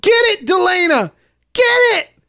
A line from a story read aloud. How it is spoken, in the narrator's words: Screaming